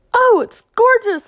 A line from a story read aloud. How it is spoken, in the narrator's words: squeaked